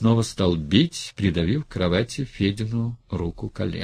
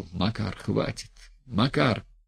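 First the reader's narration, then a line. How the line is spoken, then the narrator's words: Quiet pleading between blows. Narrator (Russian): Между ударами Федя негромко просил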